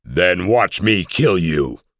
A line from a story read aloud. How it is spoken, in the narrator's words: roared